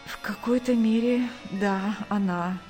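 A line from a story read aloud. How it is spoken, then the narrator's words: Tired pained reply. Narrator (Russian): устало ответил Сергей, превозмогая боль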